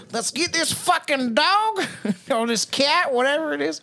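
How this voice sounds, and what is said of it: Put-on North Carolina accent. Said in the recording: “I'm from North Carolina... I always do the same accent.”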